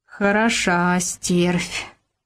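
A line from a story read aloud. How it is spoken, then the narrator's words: Sighing, old woman. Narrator (Russian): вздохнула бабка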